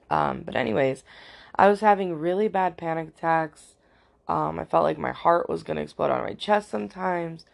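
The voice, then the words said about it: Cracky, tired-sounding voice. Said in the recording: “my voice is a little cracky today... It's cracky most of the time. I'm usually pretty tired.”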